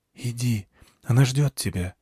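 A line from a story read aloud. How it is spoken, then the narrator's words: Quiet. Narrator (Russian): тихо сказала Калидия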